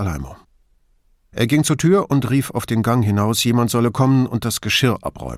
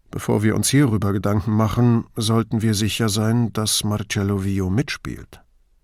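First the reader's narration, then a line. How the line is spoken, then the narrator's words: Quiet cautioning. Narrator (German): Brunetti gab leise zu bedenken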